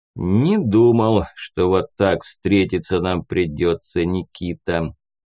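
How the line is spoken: Sudden purring tone. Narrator (Russian): вдруг замурлыкал Кирт

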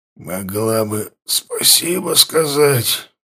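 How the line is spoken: Rasped. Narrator (Russian): прохрипел Лотар

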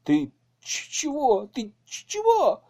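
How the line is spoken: Whimpering. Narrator (Russian): заскулил Пашка

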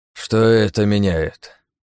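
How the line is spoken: Sighing. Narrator (Russian): вздохнул он

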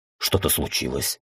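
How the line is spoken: Frightened question. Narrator (Russian): испуганно спросил я

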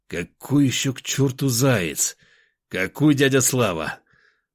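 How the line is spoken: Irritated exhale. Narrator (Russian): Раздраженно выдохнул я

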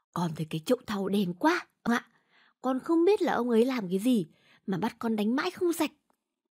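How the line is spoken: Servant boy's whisper. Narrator (Vietnamese): thằng đầy tớ thì thào

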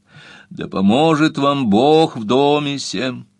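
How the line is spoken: Resonant deep voice. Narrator (Russian): произнес звучным глубоким голосом

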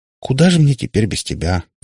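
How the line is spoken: Sighed. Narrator (Russian): вздохнула Катя

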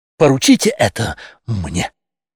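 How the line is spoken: Exclamation. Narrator (Russian): воскликнул

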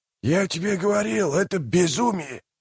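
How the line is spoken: Hissing. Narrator (Russian): прошипел слуга

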